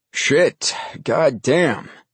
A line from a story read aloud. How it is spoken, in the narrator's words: The cursing from the deep voice trailed off